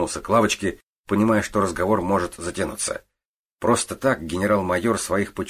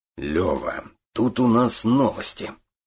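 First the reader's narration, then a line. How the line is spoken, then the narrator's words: Strange tone. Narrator (Russian): странным тоном проговорил Орлов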